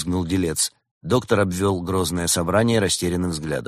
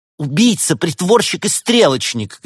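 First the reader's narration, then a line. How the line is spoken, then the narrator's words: Shout. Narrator (Russian): крикнула актриса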